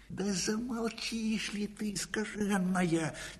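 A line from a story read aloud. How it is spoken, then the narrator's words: Quiet sharp rebuke. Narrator (Russian): тихо прикрикнул Бурачок на сову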